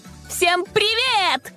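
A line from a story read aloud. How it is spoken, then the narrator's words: Shout. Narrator (Russian): закричала она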